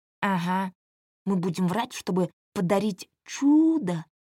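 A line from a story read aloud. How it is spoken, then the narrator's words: Mocking mimicry, whispered. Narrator (Russian): передразнил мать Вова тоже шепотом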